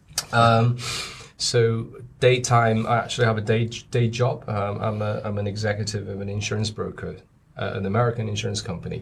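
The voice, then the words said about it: British-influenced accent. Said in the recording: “I was born in China. You know, I spent a lot of time in the UK, hence this accent.”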